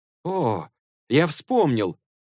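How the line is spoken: Exclamation. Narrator (Russian): воскликнул Сюань-Цзан

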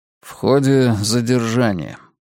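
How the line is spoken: Gloomy reply. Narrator (Russian): мрачно ответил я

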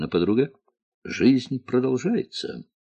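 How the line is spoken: Calm. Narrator (Russian): Пашка сказал спокойно

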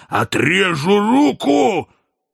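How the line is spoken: Menacing shout. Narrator (Russian): Азазелла грозно закричал с седла

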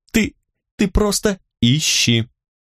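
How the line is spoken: Cold remark. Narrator (Russian): Бросила я холодно

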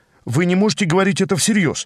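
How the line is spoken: Hurried interruption. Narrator (Russian): торопливо перебил я

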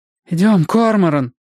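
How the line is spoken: Pleading. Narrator (Russian): взмолилась Робин

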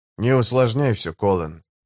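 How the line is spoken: Calm. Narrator (Russian): спокойно проговорил Гэммет

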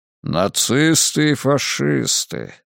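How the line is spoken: Thoughtful drawl. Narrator (Russian): задумчиво протянул кардинал Лурдзамийский

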